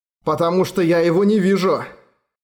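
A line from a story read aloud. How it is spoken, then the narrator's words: Growling. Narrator (Russian): Она зарычала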